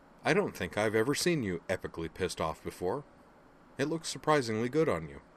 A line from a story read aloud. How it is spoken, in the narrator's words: his tone still casual, he observed